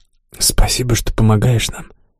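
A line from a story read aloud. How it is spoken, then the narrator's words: Soft whisper, girl. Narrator (Russian): тихо шепнула девушка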